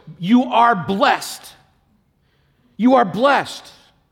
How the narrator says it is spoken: she exclaimed in a loud voice

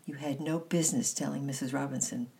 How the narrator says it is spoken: replied sharply

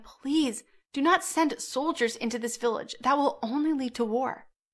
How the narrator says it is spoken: Mary begged him

